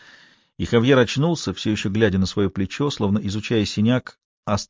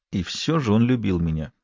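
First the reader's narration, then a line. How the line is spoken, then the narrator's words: Strained words through teeth. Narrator (Russian): с трудом процедил Хавьер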